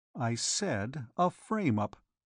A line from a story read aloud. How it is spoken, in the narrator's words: repeated Harley quietly